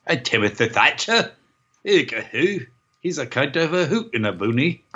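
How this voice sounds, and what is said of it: Fake English accent. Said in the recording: “that fake uh, English accent lady from the video game podcast”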